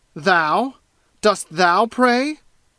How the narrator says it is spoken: cried Giovanni, still with the same fiendish scorn

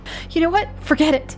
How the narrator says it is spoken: snapped

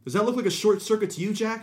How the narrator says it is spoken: She screamed at him

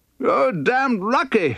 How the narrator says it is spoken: shouted

